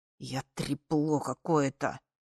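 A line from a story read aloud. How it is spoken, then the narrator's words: Melancholy hissing. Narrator (Russian): с тоской прошипел Эс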